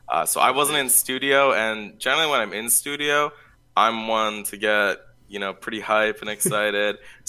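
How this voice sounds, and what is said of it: Slightly sick-sounding voice. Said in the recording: “I'm still kind of coming over COVID. You can maybe tell by my voice a little bit”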